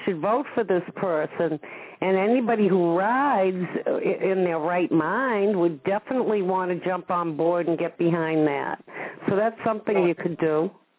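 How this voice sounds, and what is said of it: Boston accent. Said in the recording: “the way you say cards, you must be from Boston ... my accent”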